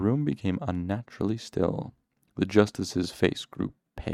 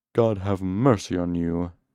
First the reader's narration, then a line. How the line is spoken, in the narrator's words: he said in a cold, trembling voice